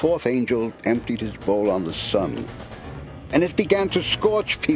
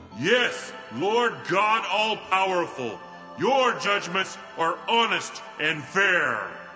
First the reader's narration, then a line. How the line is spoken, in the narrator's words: I heard the altar shout